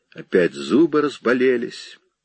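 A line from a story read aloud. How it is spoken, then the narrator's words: Plain. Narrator (Russian): сказал он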